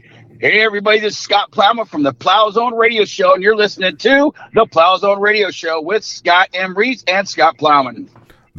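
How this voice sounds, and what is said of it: Announcer-style radio voice. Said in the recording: “You even got the voice. You even had the radio voice.”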